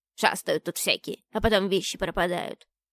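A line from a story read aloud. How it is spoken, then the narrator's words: Grumbling house spirit. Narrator (Russian): продолжал бурчать домовой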